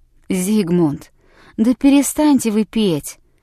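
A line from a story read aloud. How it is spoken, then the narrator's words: Pleading. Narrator (Russian): взмолился один из его товарищей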